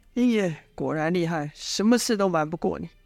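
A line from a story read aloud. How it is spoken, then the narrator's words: Feigned deflated sigh. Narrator (Chinese): 故作泄气之状，叹了一口气，说道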